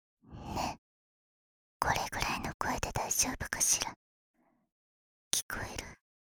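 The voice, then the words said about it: Close soft whispering. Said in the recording (Japanese): “密着しないと、ささやきなんてできないじゃない。”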